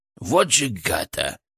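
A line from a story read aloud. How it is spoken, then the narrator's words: Furious hiss. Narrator (Russian): яростно зашипел Фырк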